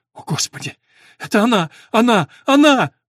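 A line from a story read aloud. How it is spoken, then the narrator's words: Exclaimed, breaking into loud sobs. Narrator (Russian): воскликнул он, и неожиданно для всех разразился громкими рыданиями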